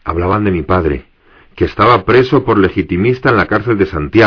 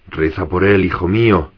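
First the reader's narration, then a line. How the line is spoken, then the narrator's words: Grandmother murmuring while kissing. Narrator (Spanish): mi abuela murmuró al besarme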